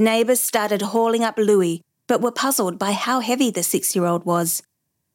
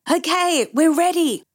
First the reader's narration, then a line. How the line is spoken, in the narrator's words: Brandon shouted